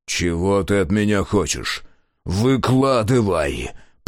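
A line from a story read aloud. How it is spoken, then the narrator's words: Barely restrained growl. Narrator (Russian): прорычал, едва сдерживаясь, Мюррей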